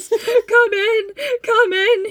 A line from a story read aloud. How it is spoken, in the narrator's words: he sobbed